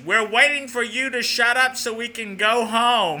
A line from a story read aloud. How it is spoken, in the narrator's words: young child in a loud voice says